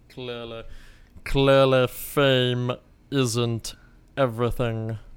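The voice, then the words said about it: Rough Severus Snape character impression. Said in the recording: “your Severus Snape impression ... That's a little bit rough. I haven't warmed up.”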